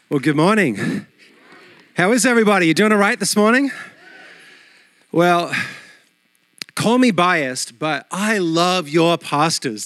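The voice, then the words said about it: Australian accent. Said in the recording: “he still has the cool Australian accent”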